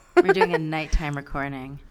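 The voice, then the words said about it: Low sexy undertone, marshmallow-muffled. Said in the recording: “I'm talking in a sexy undertone ... Is that your more, sexy more voice? ... Like mouthful of marshmallows.”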